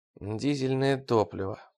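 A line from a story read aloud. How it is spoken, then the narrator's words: Muttering. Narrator (Russian): пробормотал он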